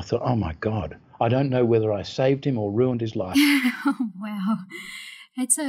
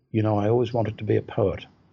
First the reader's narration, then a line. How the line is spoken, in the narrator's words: the son said quietly